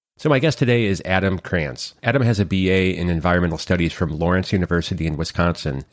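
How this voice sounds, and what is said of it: Slightly off, congested voice. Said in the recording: “my voice is a little, well, off. I do have a head cold”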